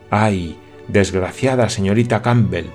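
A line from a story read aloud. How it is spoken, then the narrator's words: Sudden exclamation. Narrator (Spanish): exclamó de pronto Olivier Sinclair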